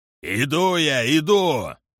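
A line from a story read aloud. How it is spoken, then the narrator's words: Shouted reply. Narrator (Russian): прокричал в ответ Киллари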